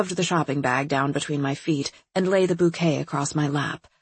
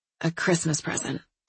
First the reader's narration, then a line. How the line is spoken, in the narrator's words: I mumbled